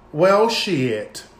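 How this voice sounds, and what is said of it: Imitates another person's voice. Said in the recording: “in my Leslie Jordan voice.”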